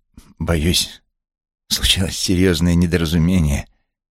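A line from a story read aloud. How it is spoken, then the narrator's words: Strained. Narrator (Russian): выдавил он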